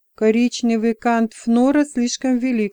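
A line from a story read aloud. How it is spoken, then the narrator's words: Plain. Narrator (Russian): сказала Айвас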